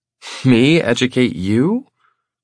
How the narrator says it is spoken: She scoffs

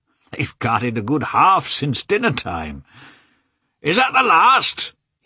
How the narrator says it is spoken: shouted to a lad who was driving past

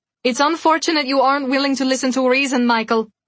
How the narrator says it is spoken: she called out after him

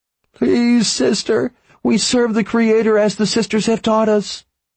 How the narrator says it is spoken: Weber cried

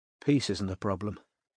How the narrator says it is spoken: she muttered to the empty room

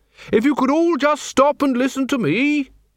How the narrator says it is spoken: he bellowed

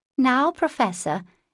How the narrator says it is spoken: in a coquettish tone, and the other pronounced her German with an accent

